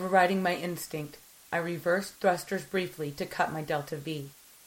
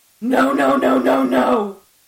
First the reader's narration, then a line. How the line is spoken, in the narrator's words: I screamed